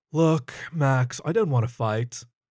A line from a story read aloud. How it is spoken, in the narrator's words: the hyena sighed